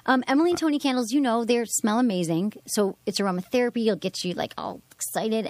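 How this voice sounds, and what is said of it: Strong regional accent. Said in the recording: “you're sounding a lot like Mr. Skin tonight ... you guys have your accent ... My accent came back? ... Oh, accent? Big.”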